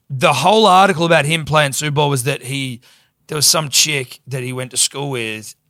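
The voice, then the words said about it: Strained, fading voice. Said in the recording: “Sorry for having testy pops all podcast. My voice is going.”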